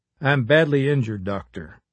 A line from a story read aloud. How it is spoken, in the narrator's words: Jackson replied in a calm but feeble voice